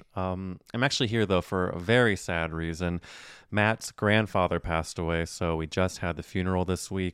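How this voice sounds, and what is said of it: Slight Southern twang. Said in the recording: “a little southern twang in my voice”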